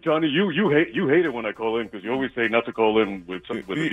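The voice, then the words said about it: Deep, smooth voiceover-style voice. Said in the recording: “should be like a voiceover person ... His voice is soothing.”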